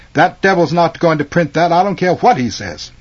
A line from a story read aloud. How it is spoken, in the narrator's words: exclaim